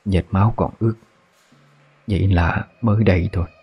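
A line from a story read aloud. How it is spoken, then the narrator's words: Old woman whispering. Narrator (Vietnamese): Bà thì thầm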